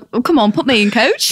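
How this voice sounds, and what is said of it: Put-on accent. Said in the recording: “That accent is amazing.”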